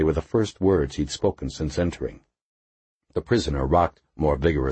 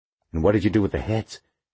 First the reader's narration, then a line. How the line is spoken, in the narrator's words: Waxy asked breathlessly